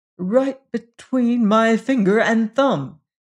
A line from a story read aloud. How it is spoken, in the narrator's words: he cried